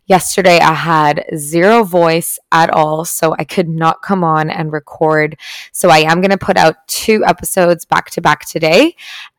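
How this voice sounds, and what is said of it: Raspy voice. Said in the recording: “my voice is sounding a little bit raspy”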